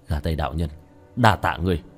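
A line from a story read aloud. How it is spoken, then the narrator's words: Smiling mutter. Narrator (Vietnamese): khóe miệng của tiểu thất hiện lên một nụ cười, lẩm bẩm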